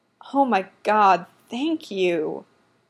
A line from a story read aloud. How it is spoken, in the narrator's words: he moans into the cup